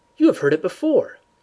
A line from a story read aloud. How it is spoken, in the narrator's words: I cried